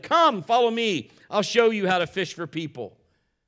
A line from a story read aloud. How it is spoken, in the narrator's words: Jesus called out to them